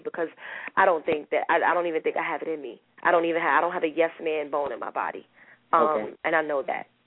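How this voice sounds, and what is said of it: Shaky, emotional voice. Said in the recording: “my voice is shaking. I'm a little emotional”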